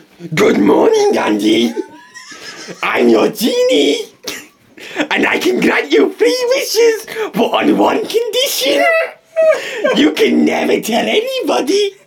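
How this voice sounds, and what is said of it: Sugar Puff Monster character voice. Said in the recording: “It's the Sugar Puff Monster. ... I'll have to do the voice.”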